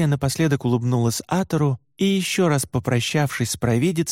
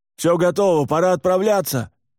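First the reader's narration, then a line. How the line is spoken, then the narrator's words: Loud shout. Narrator (Russian): громко крикнул Аха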